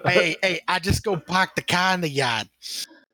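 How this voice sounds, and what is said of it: Bad put-on Boston accent. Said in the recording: “I'm trying to imagine Zero with a Boston accent ... That was the worst fucking Doc Boston accent I've ever had in my life.”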